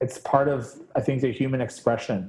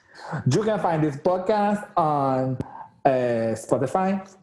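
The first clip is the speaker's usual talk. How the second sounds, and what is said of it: Sudden put-on South American accent. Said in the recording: “why am I speaking with an accent all of a sudden? I became like a South American drag queen.”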